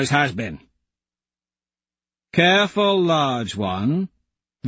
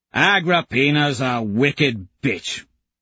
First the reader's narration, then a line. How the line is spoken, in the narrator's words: Kavix grumbles